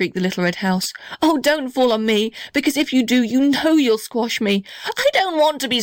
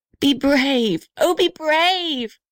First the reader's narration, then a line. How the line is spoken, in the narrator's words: shrieked the little red house